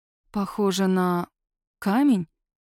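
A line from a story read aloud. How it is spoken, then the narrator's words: Uncertain, questioning tone. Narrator (Russian): Неуверенно предполагаю, отчего слова звучат вопросительно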